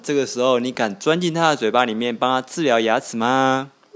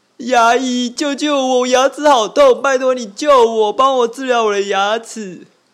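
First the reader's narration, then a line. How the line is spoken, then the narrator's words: Crying, pleading. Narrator (Chinese): 恐龙，他跟你哭求的说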